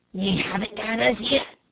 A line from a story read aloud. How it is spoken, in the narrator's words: muttered Joe, with a sardonic grin